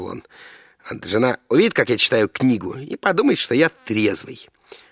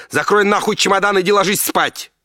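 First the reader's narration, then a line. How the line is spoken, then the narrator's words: Woman shouting. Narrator (Russian): закричала жена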